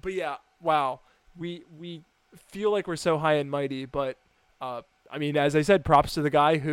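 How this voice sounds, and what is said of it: Usual voice. Nothing is said of it.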